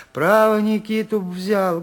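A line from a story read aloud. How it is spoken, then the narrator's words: Timid speech. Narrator (Russian): говорила она, робко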